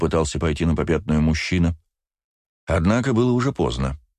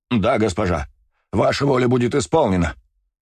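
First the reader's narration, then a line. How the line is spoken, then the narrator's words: Exclaiming. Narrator (Russian): воскликнул Ракт, в глубине души облегченно выдохнув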